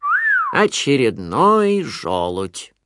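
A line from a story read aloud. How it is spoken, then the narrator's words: Grumbling. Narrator (Russian): проворчал кто-то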